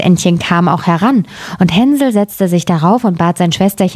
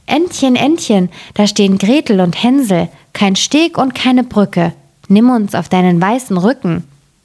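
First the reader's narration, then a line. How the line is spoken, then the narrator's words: Calling out. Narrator (German): rief sie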